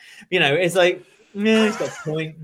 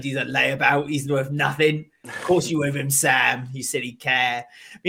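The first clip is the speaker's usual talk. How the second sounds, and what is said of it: Poor put-on London accent. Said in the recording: “Your London accent's about as good as your Northern accent ... I've never been good at accents. Awful. No. Awful.”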